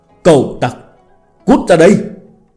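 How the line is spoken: Murderous roaring. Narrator (Vietnamese): Tống Thư gầm thét, bộ dạng như muốn giết người

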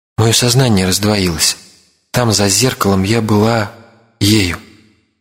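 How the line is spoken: Calm, even voice. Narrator (Russian): она говорила спокойным и ровным голосом

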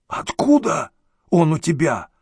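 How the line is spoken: Hoarse rasp. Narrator (Russian): прохрипел директор

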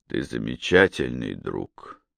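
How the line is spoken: Spoken quietly. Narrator (Russian): тихо проговорил Малкольм

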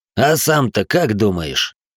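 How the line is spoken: Snort. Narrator (Russian): хмыкнул Миллер

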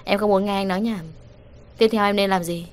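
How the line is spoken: Cold after deep breath. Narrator (Vietnamese): Sở Mạn Hà hít sâu một hơi lạnh lùng nói

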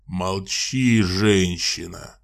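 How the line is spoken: Roar. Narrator (Russian): взревел граф

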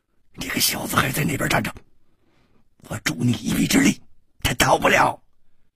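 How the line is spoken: Old man whispering. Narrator (Chinese): 那个老头忽然就掩住了他的嘴，悄声说

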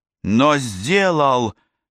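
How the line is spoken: Angry snap. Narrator (Russian): зло бросила Ева

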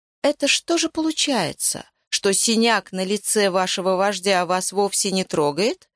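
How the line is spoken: Purring. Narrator (Russian): промурлыкал великий реалист

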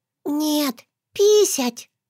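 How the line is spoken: Secretive whisper. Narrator (Russian): шепнула по секрету

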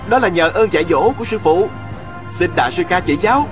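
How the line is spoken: Smiling. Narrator (Vietnamese): Viên Thừa Chí mỉm cười lên tiếng

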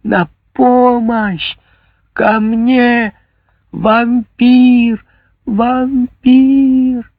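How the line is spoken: Desperate scream. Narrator (Russian): Она сделала последнее усилие и закричала

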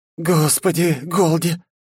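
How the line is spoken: Relieved exhale. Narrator (Russian): с облегчением выдохнула майор

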